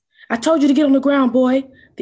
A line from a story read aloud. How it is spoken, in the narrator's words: the officer barked